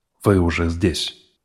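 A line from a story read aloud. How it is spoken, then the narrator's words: Tired speech. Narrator (Russian): устало произнес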